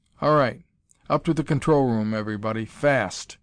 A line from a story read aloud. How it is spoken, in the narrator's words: Wells roared